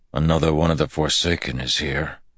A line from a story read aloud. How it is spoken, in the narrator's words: Perrin said with a grunt